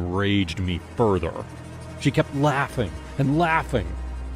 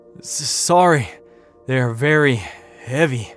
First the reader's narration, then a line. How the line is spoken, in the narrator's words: he gasped